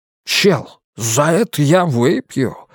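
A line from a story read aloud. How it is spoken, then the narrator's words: Ardent exclamation. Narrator (Russian): с жаром воскликнул Уитни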